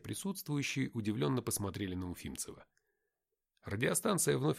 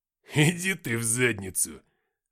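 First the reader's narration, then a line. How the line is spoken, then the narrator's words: Laughing. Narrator (Russian): рассмеявшись, сказал уфимцев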